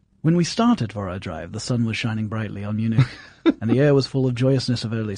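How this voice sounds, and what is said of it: Put-on English accent. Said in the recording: “I expect you to do this in an English accent ... I'll do this in English”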